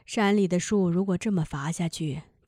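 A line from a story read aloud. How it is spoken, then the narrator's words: Sighing. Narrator (Chinese): 叹息了一声，说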